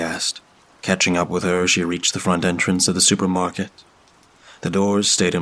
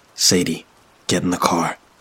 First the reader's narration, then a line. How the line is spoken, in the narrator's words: he said quietly